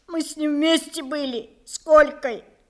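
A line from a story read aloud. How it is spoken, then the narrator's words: Tearful answer. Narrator (Russian): ответил сквозь слезы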